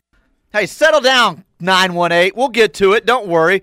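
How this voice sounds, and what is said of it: Yelling, loud voice. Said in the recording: “Why are you yelling at Tulsa for today?”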